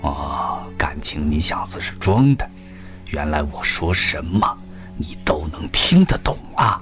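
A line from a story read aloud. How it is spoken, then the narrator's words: Quiet. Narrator (Chinese): 他的这句话声音不大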